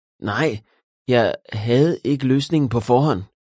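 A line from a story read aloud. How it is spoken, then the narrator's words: Stammering. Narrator (Danish): stammede William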